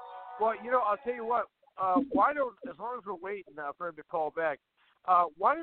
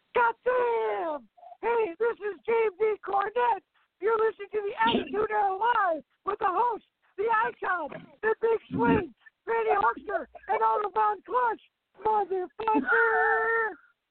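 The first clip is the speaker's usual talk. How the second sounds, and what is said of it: Excited imitation of another person's voice. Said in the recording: “Jim Cornette talk when he's excited ... my impression of James E. Cornette if he was doing the introduction”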